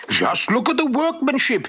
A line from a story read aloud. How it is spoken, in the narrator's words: exclaimed